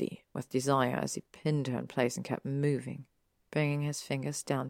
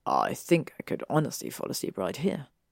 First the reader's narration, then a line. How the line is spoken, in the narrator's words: he murmured into her hair